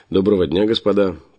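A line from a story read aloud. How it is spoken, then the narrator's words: Almost cheerful greeting. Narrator (Russian): почти весело поприветствовал я их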